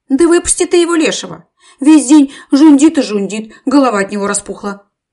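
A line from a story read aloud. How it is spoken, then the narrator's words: Shouting. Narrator (Russian): мать Степа Акулина кричала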